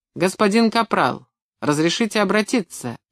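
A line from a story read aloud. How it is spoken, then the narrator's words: Barked. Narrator (Russian): рявкнул он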